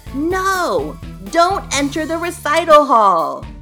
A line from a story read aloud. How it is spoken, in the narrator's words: Shriek screamed